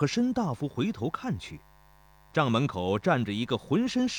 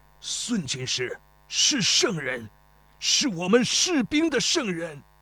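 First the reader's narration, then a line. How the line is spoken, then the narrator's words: Rough hoarse voice. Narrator (Chinese): 粗鲁沙哑的声音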